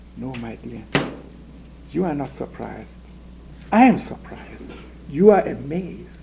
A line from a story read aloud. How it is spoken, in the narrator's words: said gently